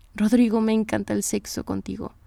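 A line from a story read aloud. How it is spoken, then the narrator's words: Plain. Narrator (Spanish): respondió ella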